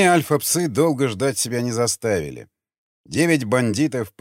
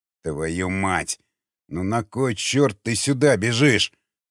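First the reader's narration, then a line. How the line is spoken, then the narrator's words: Through gritted teeth. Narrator (Russian): процедил сквозь зубы Григорий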